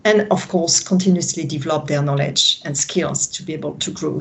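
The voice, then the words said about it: French-accented English. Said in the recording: “that's my French accent”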